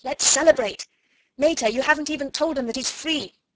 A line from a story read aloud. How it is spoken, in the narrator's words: Ring cried